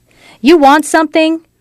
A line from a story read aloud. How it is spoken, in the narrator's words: she asked, ready to kick and scratch and yell if necessary